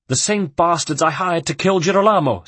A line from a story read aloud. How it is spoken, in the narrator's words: spat Caterina